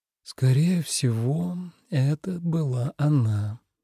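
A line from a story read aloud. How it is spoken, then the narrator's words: Thoughtful drawl. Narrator (Russian): задумчиво протянул Тоби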